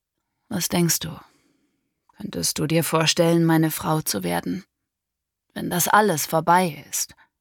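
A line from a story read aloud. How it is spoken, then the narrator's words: Sad weary question. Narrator (German): als er wieder einmal traurig und mitgenommen im Labor erschienen war, fragte er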